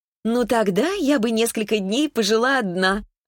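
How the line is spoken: Laughing. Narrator (Russian): Она засмеялась

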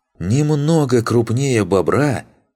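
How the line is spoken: Indignant. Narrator (Russian): возмущенно произнес Луфи

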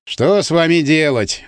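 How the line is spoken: Sighing. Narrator (Russian): вздохнул

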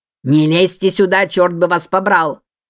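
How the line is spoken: Barked through megaphone. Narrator (Russian): Гаркнул командир добровольцев через рупор

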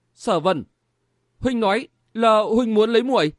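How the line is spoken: Stammering question. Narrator (Vietnamese): Nàng lắp bắp hỏi

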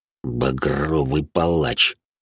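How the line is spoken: Through gritted teeth. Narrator (Russian): сквозь зубы процедил

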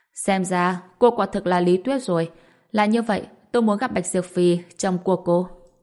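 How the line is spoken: Loud laughing reply. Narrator (Vietnamese): Người đàn ông cười lớn đáp

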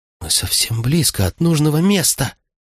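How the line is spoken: Excited whisper. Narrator (Russian): Восторженным шепотом проговорила мама, когда все же смогла прочитать полустершиеся буквы названия станции

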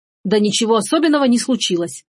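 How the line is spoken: Irritated mayor. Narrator (Russian): раздраженно сказал мэр

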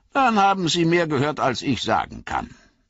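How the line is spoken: Plain. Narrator (German): antwortete der Ohm

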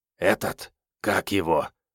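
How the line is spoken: Whisper. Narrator (Russian): прошептал Вано

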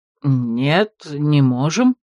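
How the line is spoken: Confused, disconcerted reply. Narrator (Russian): растерянно и немного обескураженно ответил целитель

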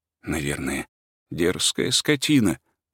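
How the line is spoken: Muttered. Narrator (Russian): пробормотал

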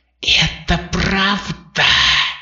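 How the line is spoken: Hissing. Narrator (Russian): прошипел Врил

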